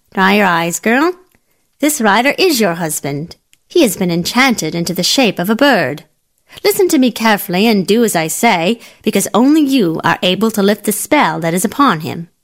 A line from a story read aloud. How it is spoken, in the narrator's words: The old woman, who was something of a wise woman, said sharply